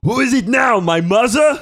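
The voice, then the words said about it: Imitates another person's voice. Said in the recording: “your impression ... My impression's the shit.”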